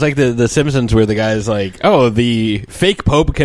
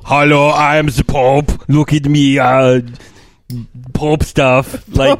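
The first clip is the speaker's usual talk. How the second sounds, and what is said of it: Deliberately bad mock Pope voice. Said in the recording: “here's my impression of the Pope ... just keep going with these bad impressions”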